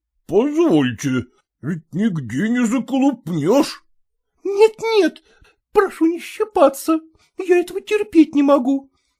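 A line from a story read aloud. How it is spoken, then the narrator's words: Shrill shriek, midwife. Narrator (Russian): взвизгнула акушерка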